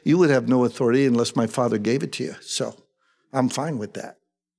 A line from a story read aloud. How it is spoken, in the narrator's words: Jesus calmly says